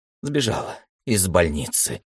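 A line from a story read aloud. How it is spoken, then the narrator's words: Quiet uncharacteristic breathy utterance. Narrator (Russian): тихо выдохнул секретарь, что было совсем ему не свойственно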